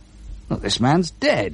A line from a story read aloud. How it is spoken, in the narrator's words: exclaimed